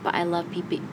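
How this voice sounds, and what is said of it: Accent slips into pronunciation. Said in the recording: “It was my accent starting coming out.”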